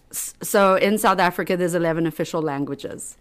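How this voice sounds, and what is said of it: South African accent. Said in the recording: “So I grew up in South Africa. That's why I have an accent.”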